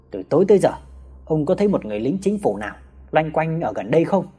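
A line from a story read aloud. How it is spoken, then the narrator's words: Harsh, stern voice. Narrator (Vietnamese): Một tên sĩ quan gằn giọng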